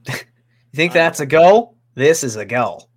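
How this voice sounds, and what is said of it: Weak put-on Australian accent. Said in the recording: “Was that a solid Australian accent? ... No”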